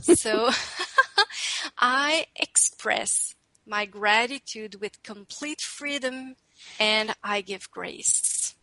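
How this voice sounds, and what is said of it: English with French accent. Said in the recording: “I will add my French accent.”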